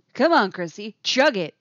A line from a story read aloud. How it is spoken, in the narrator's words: he says, voice projecting loudly again